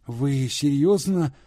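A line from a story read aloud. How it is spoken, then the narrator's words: Trembling interruption. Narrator (Russian): дрожащим голосом прервала их Алиса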